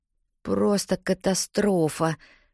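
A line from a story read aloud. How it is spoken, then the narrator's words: Muttering. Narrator (Russian): бормочу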